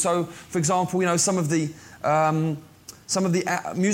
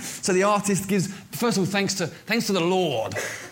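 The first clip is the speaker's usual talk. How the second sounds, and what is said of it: Put-on American accent. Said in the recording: “I always do the American accent at this point ... I just kick into America at this point”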